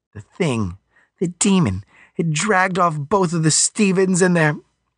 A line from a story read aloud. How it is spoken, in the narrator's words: she choked up